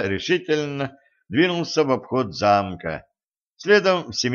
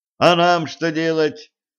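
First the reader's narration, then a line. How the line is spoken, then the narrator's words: Shouting after someone. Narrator (Russian): крикнул им вслед лейтенант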